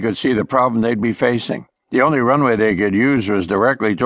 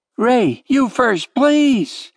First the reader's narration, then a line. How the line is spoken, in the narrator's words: Katie pleaded into the microphone